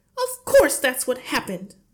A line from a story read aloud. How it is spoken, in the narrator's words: the mother cried